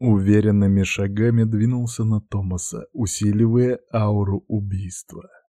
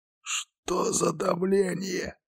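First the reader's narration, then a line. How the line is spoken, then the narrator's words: Hoarse rasp. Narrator (Russian): прохрипел Юдир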